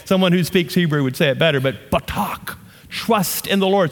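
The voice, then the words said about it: Southern American accent. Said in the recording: “I just butchered that with my southern accent”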